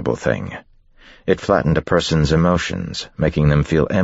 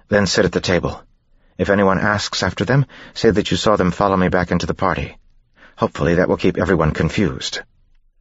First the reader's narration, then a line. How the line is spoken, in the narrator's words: Vin said quickly